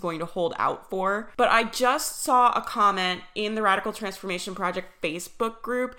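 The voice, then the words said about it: Congested voice from a cold. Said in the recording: “I have a cold, you guys, so if my voice sounds weird”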